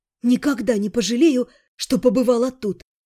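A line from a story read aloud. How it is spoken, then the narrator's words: Choked exhale. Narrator (Russian): сдавленно выдохнула я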